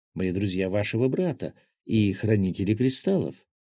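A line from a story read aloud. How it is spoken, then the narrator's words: Gentle trustworthy coo. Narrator (Russian): ласковым голосом, которому сразу хотелось верить, проворковала лиса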